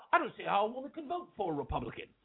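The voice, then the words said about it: Badly done English accent. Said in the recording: “all the English accent ... I'm butchering the accent.”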